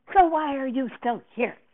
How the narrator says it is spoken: Davenport said to me angrily

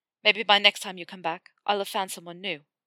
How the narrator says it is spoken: said bitterly, though he meant the words

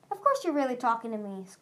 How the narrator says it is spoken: Clay said cheerfully

